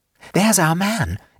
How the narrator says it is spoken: exclaimed Suzanne suddenly

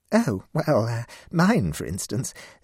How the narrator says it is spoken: said Mavis, with a feeble laugh

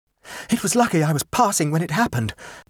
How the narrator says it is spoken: panted Rex

